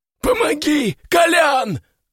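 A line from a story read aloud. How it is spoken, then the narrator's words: Shouting. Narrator (Russian): заорал он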